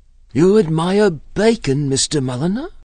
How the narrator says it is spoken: she asked eagerly

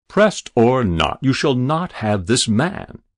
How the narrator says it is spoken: he thundered

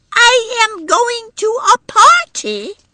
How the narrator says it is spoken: little Edie had confirmed the business by shouting

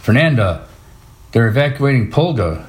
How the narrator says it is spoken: she said

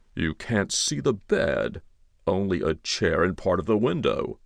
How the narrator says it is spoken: he said in a mildly complaining tone

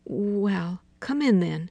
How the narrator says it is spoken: she said hesitantly

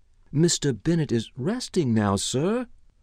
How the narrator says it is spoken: the butler replied hesitantly

